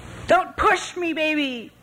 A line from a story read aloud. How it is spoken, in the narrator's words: she shouted